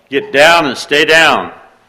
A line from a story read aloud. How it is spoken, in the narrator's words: Dad hollered